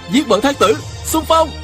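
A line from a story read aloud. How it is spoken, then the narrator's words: Straining battle cry. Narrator (Vietnamese): Viên Thừa Chí cố gắng nhổm dậy, la lên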